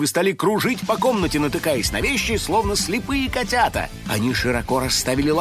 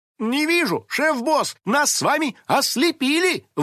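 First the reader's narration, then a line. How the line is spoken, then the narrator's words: Exclaiming. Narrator (Russian): воскликнула напарница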